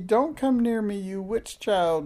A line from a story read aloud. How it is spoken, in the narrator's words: She shrieked